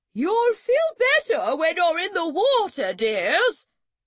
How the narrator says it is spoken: Auntie Bee called out

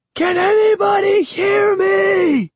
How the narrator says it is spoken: I screamed

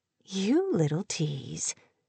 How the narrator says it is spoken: he said, and laughed softly

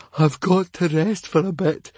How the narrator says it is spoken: wheezed poor Fishlegs

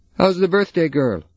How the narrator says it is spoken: he called out

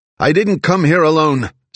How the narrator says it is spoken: Zig shouted

